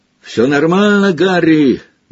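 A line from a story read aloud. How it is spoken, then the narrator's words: Shouting mid-flight. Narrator (Russian): на лету прокричал Фред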